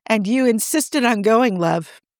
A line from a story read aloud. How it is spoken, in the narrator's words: Quinn sighs